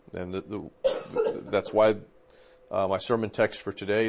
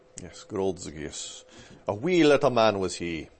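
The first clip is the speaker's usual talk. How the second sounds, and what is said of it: Put-on Scottish accent. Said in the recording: “You gotta say it with the Ian Duguid ... Ian Duguid Scottish accent, not a Sinclair Ferguson accent”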